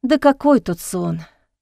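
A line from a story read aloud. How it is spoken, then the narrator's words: Sighing. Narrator (Russian): вздохнула Эхо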